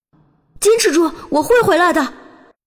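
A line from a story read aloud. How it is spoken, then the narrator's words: Determined shout. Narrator (Chinese): 一咬牙 喊道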